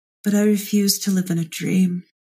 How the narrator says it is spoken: sort of smile sadly and say

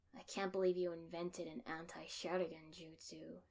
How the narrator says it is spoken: Sasuke grumbled at me

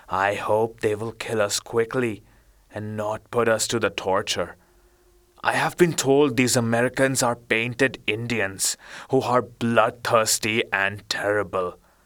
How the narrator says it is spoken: Benny said in a hollow voice

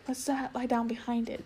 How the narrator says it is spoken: whispered Lazarine

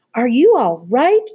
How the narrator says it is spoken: Grandma cried

